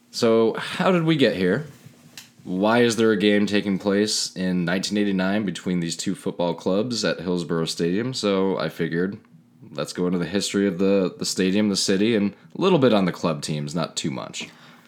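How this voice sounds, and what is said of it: Quiet TV news-anchor narrator voice. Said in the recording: “when you go into your narrator voice, you start talking like this ... my alter ego is, Kent, quiet. Is Kent Brockman from The Simpsons ... you may want to just get closer to the mic when you go into your narrator voice”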